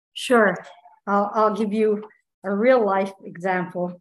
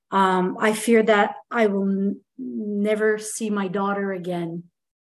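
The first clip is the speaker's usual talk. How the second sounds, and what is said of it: Voice cracking with emotion. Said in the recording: “my voice cracking”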